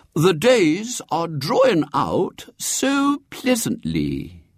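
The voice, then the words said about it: Mincing, affected voice. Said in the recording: “he was saying to himself in a mincing accent.”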